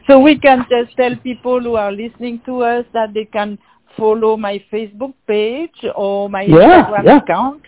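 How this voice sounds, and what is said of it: French-accented English. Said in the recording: “it's good to hear a French, accent in Louisiana”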